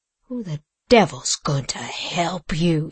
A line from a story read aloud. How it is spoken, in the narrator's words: said Legree scornfully